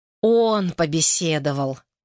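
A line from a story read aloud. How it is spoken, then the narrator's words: Sighing. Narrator (Russian): вздохнула Лена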